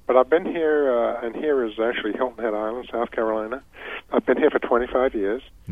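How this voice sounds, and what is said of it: English accent. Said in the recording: “most people can tell a little bit by your accent that you're not from here ... I come from England originally, as you can probably tell”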